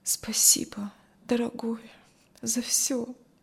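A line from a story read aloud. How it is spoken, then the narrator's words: Tired, barely audible. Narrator (Russian): Кристи устало поднялась и еле слышно сказала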